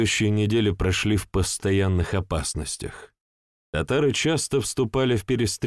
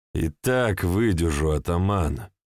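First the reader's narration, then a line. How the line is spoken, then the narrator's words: Gloomy pronouncement. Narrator (Russian): мрачно изрек Иван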